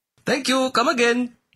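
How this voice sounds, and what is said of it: Apu's exaggerated Indian accent. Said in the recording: “played by white actor Hank Azaria, complete with silly accent and stupid catchphrases”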